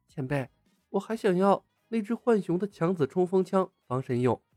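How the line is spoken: Whisper. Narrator (Chinese): 孟姬压低声音在李牧的耳边道

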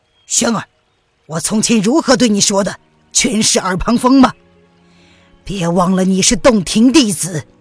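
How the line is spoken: Stern, harsh. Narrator (Chinese): 吴建之厉声的道

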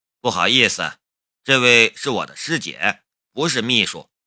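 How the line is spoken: Cool, flat. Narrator (Chinese): 夏雷淡淡的道

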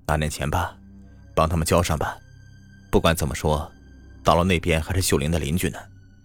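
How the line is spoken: Sighing. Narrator (Chinese): 他叹了一口气，对秘书说

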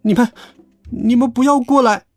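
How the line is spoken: Frightened stammer. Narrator (Chinese): 我顿时感到害怕，结结巴巴的说

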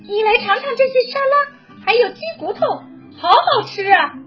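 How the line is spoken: Surprised exclamation. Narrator (Chinese): 惊讶的叫道

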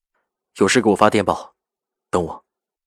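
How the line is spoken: Firm, certain. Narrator (Chinese): 赵世南声音笃定

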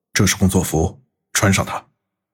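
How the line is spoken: Low voice. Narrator (Chinese): 低声说道

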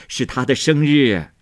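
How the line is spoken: Old woman laughing. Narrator (Chinese): 贾母笑道

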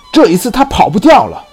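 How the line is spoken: Shouting in unison. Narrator (Chinese): 两个人异口同声地喊道

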